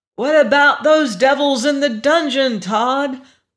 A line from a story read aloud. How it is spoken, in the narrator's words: Augie had to shout to make himself heard above the turmoil